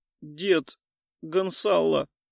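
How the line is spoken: Breathless mumble. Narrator (Russian): промямлила я, задыхаясь

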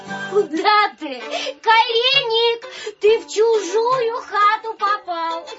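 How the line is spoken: Girls shouting with laughter. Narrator (Russian): Закричали, смеясь девушки

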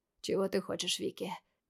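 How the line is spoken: Hoarse, husky question. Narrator (Russian): таким же севшим голосом спросил Сайтон

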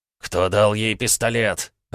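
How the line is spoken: Growled. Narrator (Russian): рыкнул Бобров

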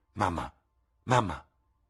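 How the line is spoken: Exclaimed. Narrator (Italian): esclamò

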